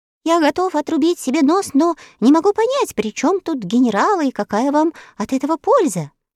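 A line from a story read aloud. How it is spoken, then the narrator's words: Faltering babble. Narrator (Russian): пролепетал он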